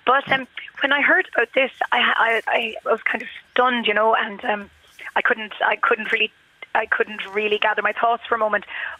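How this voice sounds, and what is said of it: Slightly croaky voice. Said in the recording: “I'm a bit croaky because I have a bit of a sore throat.”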